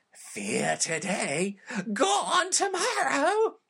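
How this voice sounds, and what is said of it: Crypt Keeper impression. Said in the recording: “do the Crypt Keeper voice. ... You do a good Crypt Keeper.”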